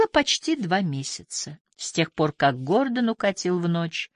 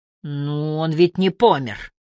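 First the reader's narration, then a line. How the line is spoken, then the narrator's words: Angry mumble. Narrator (Russian): Сердито пробубнила Винни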